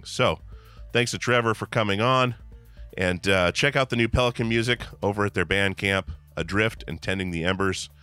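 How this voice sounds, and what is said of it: Hoarse, strained voice. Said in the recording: “As you can hear, my voice is shot. Next week should be much better on the voice end.”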